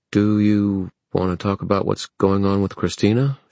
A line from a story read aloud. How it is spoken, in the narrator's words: She said hesitantly